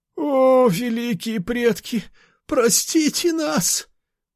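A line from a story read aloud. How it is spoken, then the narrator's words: Old man's pleading. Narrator (Russian): Взмолился старик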